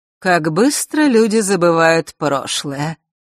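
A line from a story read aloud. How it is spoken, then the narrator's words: Feigned sigh. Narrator (Russian): притворно вздохнула повелительница лютов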